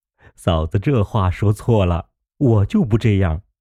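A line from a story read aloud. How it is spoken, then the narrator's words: Laughing. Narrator (Chinese): 贾瑞笑道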